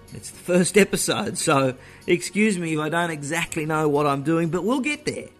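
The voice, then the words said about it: Australian accent. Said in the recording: “I do speak funny ... the accent is not from South Texas ... The accent is Australian”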